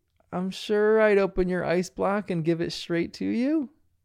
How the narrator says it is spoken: Bandit says really hesitantly

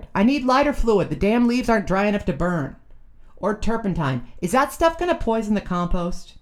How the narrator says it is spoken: hollered

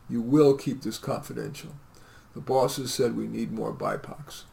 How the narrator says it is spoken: The recruiter was evasive, the recruiter sighed and said

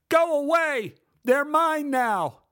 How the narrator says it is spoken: He yelled from inside the house

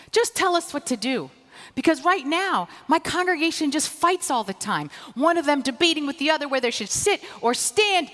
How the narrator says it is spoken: cried the young new rabbi

